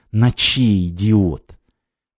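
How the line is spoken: Hissed. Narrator (Russian): Валерка прошипел

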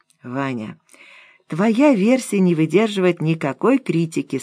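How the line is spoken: Calm. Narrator (Russian): спокойно сказала Нора

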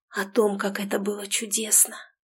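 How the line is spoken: Hoarse reply. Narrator (Russian): Отозвалась хриплым голосом

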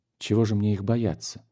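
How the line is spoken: Quiet reply. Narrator (Russian): тихо ответила

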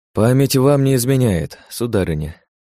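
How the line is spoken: Sighing. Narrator (Russian): вздохнул я

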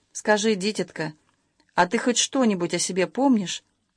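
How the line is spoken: Gentle old woman. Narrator (Russian): Старушка ласково обратилась к Любаше

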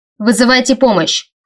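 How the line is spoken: Shouting. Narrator (Russian): крикнул Эйс

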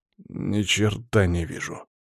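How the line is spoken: Mumbling. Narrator (Russian): пробормотал Леонидов

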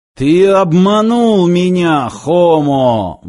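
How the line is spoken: Roaring loudspeaker. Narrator (Russian): взревел динамик

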